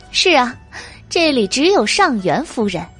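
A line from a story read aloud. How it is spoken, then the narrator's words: Laughing. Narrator (Chinese): 上元夫人也笑道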